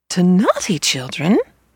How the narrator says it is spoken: they exclaimed

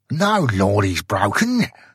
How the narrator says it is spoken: snarled the Brythunian

